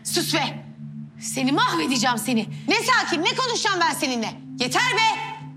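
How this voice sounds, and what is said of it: Angry shouting. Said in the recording (Turkish): “Ya lütfen bir yavaş konuşun... Bu saatte bağırılır mı?”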